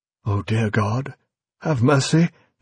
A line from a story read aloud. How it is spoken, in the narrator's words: gasped, realization dawning, a realization more sickening than the pain